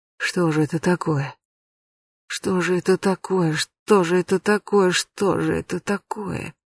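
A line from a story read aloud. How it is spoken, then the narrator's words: Muttering. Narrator (Russian): бормотал он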